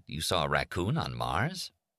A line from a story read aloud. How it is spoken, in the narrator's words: The Whitlock chuckled